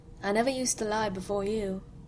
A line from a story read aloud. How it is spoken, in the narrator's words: he said softly